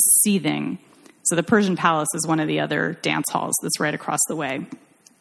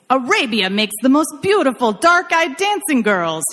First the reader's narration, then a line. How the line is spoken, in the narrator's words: yelled